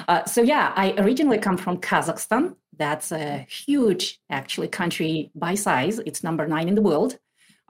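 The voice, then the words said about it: Speaks with a foreign accent. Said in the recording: “you have a very, very beautiful accent”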